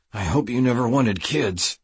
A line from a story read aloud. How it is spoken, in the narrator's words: I teased through clenched teeth